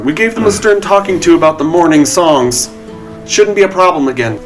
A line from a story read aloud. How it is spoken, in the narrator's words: She kind of yells across the room